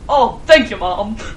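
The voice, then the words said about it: Put-on British accent. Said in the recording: “Like in a British accent.”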